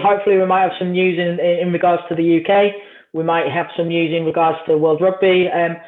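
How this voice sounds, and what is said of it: English accent. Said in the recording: “the dodgy English accent”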